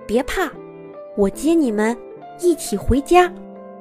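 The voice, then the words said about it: Quiet, whispered voice. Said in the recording (Chinese): “小声地说”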